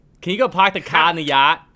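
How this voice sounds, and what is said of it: Attempted Boston accent. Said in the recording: “not approving of your Boston accent whatsoever ... our accents need some work”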